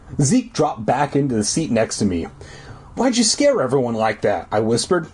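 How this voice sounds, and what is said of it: Deep voice, slight surfer accent. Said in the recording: “I just threw out my voice in the first 20 goddamn minutes ... So it's deep, it has kind of a Southern California accent, a little surfery”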